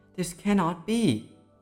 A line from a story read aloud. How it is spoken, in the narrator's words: yelled the stepmother